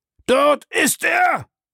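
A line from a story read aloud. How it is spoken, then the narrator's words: Hoarse roar. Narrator (German): brüllte Bellamy mit rauer Stimme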